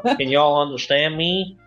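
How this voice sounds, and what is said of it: Weak attempted American Southern accent. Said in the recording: “I can't do an American accent... It's kind of like a southern... It's shit. I can't do it.”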